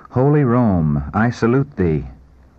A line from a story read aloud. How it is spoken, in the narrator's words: With deep emotion, exclaiming